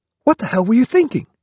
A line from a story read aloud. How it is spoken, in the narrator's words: snapped